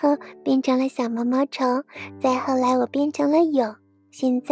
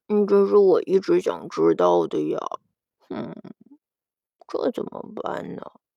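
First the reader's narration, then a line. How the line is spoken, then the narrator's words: Quiet mumbling child. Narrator (Chinese): 小顽童小声的嘟囔道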